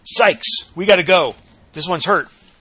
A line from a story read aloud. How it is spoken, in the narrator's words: the medic shouts out